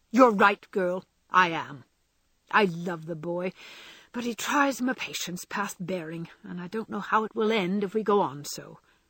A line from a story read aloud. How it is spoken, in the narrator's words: the old gentleman only threw his spectacles onto the table with a rattle and exclaimed frankly